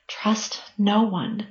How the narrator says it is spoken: Cassie responded quietly, internally telling herself

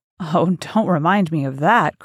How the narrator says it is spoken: cried Dorian Gray

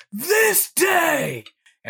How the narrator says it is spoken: the kids all yell back

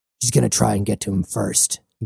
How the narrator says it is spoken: he growled

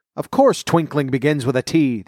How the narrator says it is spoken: the king said sharply

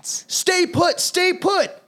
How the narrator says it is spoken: They shout

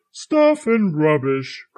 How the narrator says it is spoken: cried Santa

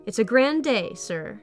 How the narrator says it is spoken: smile, brightly say

